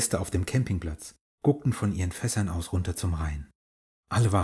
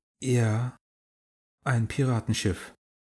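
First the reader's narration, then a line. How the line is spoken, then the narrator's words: Amazed, slightly shaky reply. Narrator (German): Jule kam aus dem Staunen nicht mehr raus und erwiderte mit leicht wackeliger Stimme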